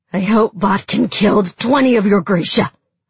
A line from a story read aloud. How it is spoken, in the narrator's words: I spat at him